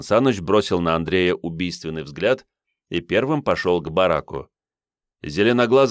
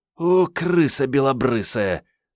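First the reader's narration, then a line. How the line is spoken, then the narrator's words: Relieved sigh. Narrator (Russian): с облегчением вздохнула Мариетта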